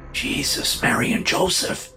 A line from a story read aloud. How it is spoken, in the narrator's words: the man whispered